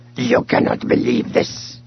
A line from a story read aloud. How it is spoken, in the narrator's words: he growled, disgustedly